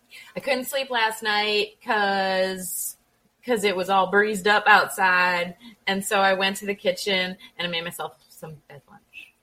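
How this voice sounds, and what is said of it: Put-on Southern US accent. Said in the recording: “she sounded the way you just said it, like she was from down south”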